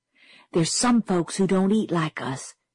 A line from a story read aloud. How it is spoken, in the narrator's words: she whispered fiercely